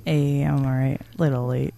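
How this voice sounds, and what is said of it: Sleepy, tired-sounding voice. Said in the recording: “you sound a little sleepy,”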